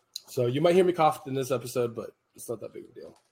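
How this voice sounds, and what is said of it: Sick-sounding voice. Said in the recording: “But I hear it in my voice. ... definitely hear it.”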